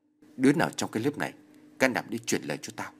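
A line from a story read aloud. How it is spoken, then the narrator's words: Stern question. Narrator (Vietnamese): Tôi hỏi mặt nghiêm giọng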